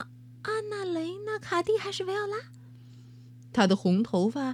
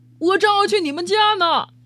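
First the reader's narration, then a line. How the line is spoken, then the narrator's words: Man shouting loudly. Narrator (Chinese): 一位叔叔高声冲露露喊道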